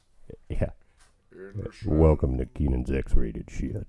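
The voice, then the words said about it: Sam Elliott impression. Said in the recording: “you have to do your Sam Elliott voice.”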